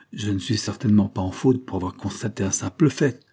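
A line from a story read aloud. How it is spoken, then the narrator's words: Gentle. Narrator (French): dit doucement Mr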